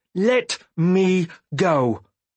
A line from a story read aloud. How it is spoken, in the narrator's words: I said firmly